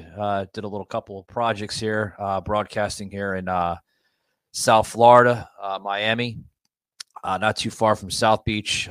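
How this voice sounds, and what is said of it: Tired-sounding voice. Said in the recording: “As you can hear in my voice, I'm a little tired.”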